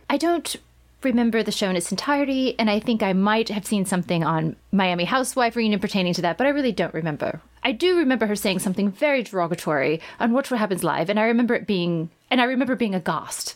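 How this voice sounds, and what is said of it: British accent impression of LVP. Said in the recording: “I'm not saying I have a good British accent. I just happen to. ... will play LVP.”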